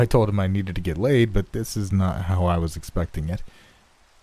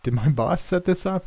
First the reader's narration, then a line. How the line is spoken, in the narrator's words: A nervous laugh escaped me